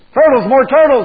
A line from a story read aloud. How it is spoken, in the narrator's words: bellowed